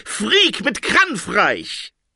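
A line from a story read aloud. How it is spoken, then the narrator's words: Shouted. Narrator (German): schrie der Traumdeuter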